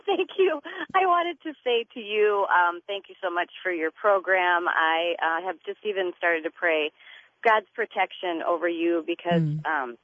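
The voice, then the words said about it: Slightly congested, stuffy voice. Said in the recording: “I have a little bit of a cold ... you sound cute”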